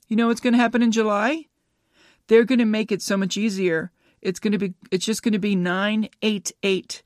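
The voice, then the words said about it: Noticeable regional accent. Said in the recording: “No, that's not a W. I know my accent.”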